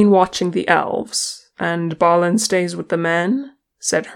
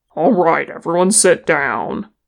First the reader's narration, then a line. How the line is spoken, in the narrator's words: Thror growled